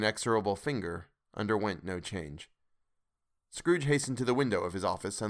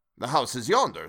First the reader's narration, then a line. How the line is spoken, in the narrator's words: Scrooge exclaimed